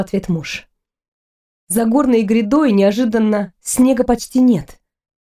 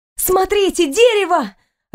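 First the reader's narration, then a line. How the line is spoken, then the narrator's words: Joyful shout. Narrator (Russian): радостно закричала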